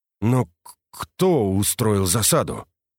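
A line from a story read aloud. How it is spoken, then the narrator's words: Strained, restrained mutter. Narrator (Russian): пробормотал, подавляя боль в горле и стараясь держать рвущиеся наружу эмоции под контролем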